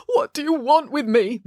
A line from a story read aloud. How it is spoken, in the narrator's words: moaned their father